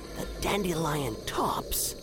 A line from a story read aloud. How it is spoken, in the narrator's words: he whispered